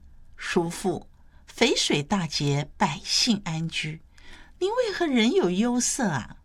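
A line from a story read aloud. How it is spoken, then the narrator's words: Smiling question. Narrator (Chinese): 谢道韫笑着问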